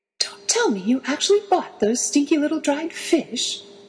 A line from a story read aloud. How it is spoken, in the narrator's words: Draco exclaimed